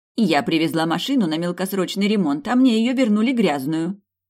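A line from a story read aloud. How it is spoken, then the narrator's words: Indignant woman. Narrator (Russian): говорит женщина возмущенно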